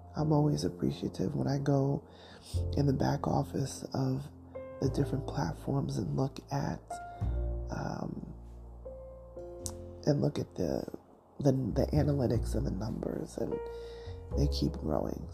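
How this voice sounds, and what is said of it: Crackly morning voice. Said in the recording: “My voice is crackly. See, you get morning. right now.”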